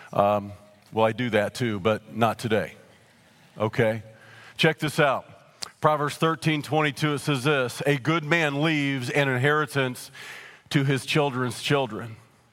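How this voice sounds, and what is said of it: Scratchy, slightly weak voice. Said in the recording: “My voice is a little scratchy. It's a little weak. It's just allergies.”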